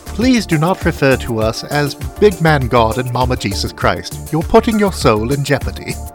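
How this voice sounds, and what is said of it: Put-on accent. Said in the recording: “nice accent”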